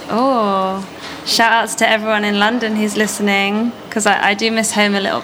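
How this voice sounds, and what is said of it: London English accent. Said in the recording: “I love your accent. ... This is ... from London. ... London accents”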